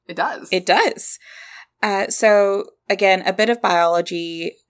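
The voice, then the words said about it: Southern US accent. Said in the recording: “That was the most southern way that I've ever said the word biology. ... we're from Kentucky.”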